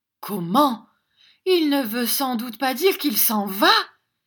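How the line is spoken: Exclaiming. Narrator (French): s'écria Madame Gruden

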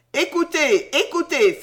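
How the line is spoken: Exclaimed. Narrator (French): s'écria Sam

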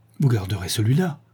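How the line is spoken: Quick, eager question. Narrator (French): demanda-t-elle vivement

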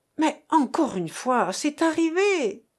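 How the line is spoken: Impatient exclamation. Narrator (French): s'écria Marthe, qui perdait patience

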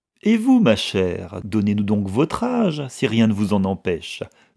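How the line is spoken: Cheerful. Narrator (French): demanda Mistress Heathcote gaiement

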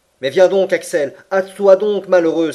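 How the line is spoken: Uncle calling from afar. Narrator (French): s'écria mon oncle du plus loin qu'il m'aperçut

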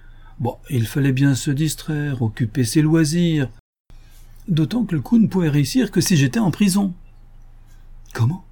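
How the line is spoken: Exclaiming. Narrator (French): s'exclama Ganimard

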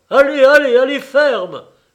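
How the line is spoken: Doctor shouting. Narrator (French): criait le docteur

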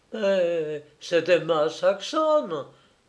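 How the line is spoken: Exclaimed. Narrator (French): s'exclama-t-elle

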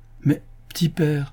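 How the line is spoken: Exclaiming, laughing loudly. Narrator (French): s'écria Yossel, riant aux éclats

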